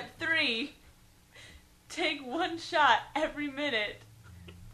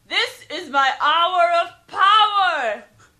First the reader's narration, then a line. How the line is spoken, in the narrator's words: Yell out confidently